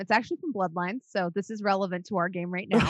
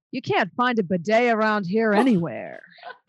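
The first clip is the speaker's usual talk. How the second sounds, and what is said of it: Impression of a Bloodlines game character. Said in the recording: “This is a good impression too.”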